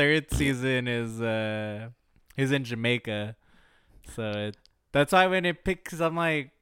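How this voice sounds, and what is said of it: Usual voice. Nothing is said of it.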